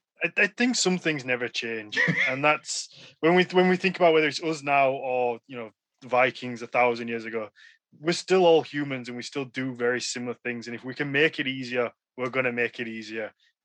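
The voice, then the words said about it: Regional accent, dropped H sounds. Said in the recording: “my accent, we cut out so many letters. Like, I don't pronounce my H most of the time.”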